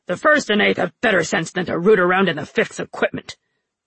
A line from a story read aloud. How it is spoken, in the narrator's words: Jun snapped